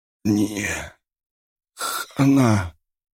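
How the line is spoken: Hoarse wheeze. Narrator (Russian): человек прохрипел

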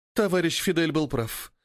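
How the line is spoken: Sighing. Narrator (Russian): вздохнула Фиалка

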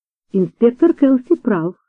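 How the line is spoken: Plain. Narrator (Russian): сказала мисс Вулстерд

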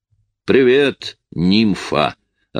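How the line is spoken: Booming voice. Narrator (Russian): обратился он к Лоис зычным голосом

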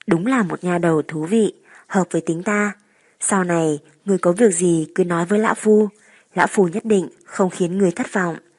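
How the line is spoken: Hearty laughing old man. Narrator (Vietnamese): Vô Thượng Tản Nhân ha ha cười to, vừa nói

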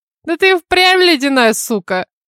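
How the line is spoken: Guffawing. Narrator (Russian): хохотнула Мелисса

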